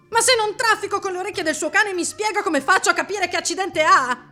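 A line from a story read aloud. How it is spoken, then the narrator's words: Shrieked. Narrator (Italian): strillò Dario massaggiandosi il braccio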